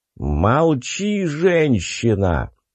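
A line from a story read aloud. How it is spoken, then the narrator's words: Growled, male priest. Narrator (Russian): прорычал один из бритых жрецов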